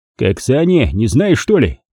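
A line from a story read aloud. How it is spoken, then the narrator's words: Rude reply. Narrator (Russian): Так же грубо ответил я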